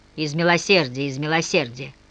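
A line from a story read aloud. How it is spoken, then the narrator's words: Grumbling. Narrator (Russian): проворчал унтер-офицер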